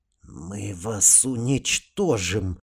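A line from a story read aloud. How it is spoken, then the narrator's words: Hissed threat. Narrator (Russian): прошипел посланник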